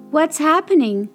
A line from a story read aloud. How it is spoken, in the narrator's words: cried Dot